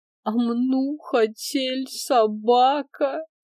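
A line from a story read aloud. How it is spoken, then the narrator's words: Upset whimpering. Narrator (Russian): расстроенно захныкала Аленка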